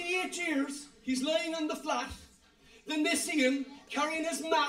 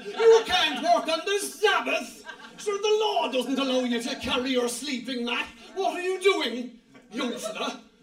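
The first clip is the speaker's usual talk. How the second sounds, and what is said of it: Put-on local Irish Cork accent. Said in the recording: “in their very best Ballinlock, Black Rock, Douglas accent”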